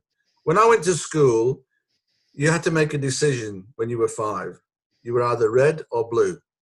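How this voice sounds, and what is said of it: Manchester accent. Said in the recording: “You are a Manchester boy. ... As soon as they hear my accent”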